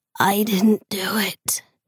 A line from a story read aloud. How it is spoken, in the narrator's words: he whispered